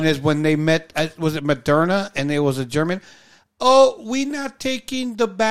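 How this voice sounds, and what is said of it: Usual voice. Nothing is said of it.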